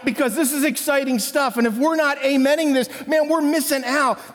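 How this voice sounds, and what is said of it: Excited, energetic preaching voice. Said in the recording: “do the excited voice that you do. And I feel like I'm doing it right now.”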